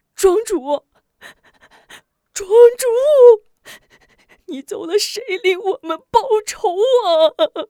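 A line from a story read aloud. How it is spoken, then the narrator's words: Shocked wailing. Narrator (Chinese): 惊呆 大哭起来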